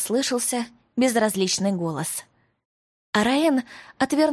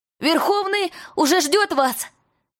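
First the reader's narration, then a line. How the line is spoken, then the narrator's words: Shouted from behind door. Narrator (Russian): крикнул мальчишка из-за двери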